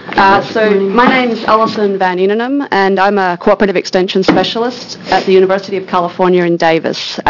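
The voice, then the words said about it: Australian accent. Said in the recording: “a Bachelor of Ag Science from the University of Melbourne. That's where the accent comes from.”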